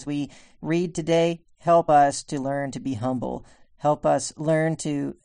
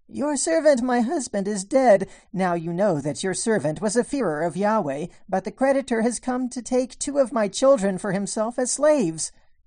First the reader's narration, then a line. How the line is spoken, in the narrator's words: A certain woman cried out, saying